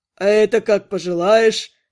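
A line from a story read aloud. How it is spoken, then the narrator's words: Chuckling. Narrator (Russian): хохотнул элементалист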